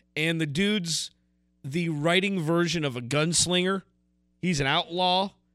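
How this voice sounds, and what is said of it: Put-on southern accent. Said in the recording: “I'm talking in a southern accent”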